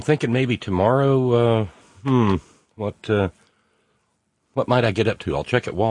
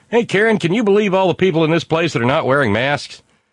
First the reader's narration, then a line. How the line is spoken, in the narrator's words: Steve said that he would just speak very loudly to his lovely wife, Karen, so the maggots could hear him say